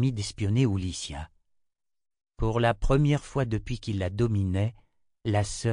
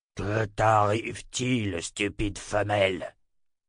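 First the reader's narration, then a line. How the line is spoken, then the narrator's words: Incoherent mumbling. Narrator (French): la sœur de l'obscurité continua à marmonner des propos incohérents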